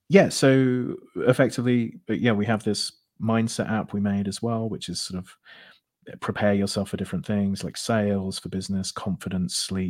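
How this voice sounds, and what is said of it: British accent. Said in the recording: “your accent, fantastic ... It's British ... British accent”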